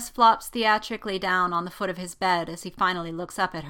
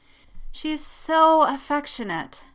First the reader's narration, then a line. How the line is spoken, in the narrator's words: sighs